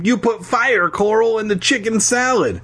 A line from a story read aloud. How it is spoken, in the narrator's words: Alexander laughed